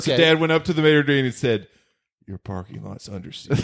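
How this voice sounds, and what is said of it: Steven Seagal impression. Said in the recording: “impersonate Steven Seagal”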